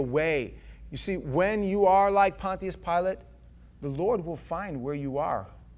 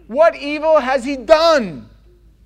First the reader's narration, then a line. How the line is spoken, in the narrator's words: They cried out all the more, saying